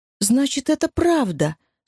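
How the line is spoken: Horrified exclamation. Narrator (Russian): с ужасом воскликнула Энни

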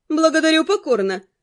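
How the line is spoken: Snorting. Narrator (Russian): хмыкнула Нед

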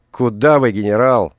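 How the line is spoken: Angry shout. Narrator (Russian): разозленно крикнул Соломон

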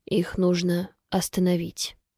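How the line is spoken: Quiet conclusion. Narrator (Russian): тихо заключает она

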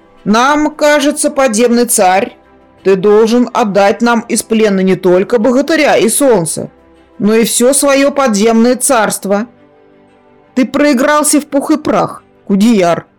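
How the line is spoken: Thundering voice. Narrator (Russian): прогремел голос Буса

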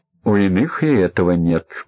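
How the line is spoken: Tired, smiling. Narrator (Russian): устало улыбнулся Королев

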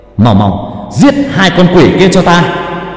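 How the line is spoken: Shout. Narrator (Vietnamese): Kỳ Tân hét lên

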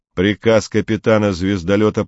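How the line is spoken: Metallic-voiced quoting. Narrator (Russian): Комов тем же металлическим голосом процитировал

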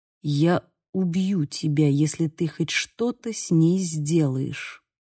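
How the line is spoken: Quiet but firm. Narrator (Russian): произнес тихо, но так твердо

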